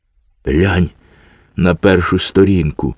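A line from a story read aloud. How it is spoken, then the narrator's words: Sad child. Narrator (Ukrainian): сумно сказав малий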